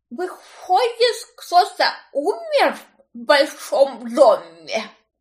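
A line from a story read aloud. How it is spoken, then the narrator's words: Mumbling, toothless. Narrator (Russian): Пошамкала губами та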